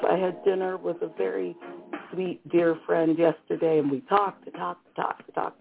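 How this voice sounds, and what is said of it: Slightly hoarse voice. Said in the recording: “my voice is a little hoarse, my throat is a little off”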